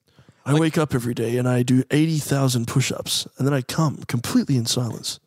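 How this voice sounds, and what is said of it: Impression of a movie serial killer. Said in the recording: “my new favorite impression ... The American Psycho”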